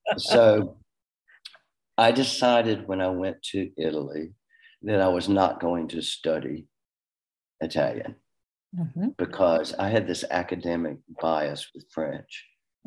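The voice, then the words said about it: Southern American accent. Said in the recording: “this Southern accent”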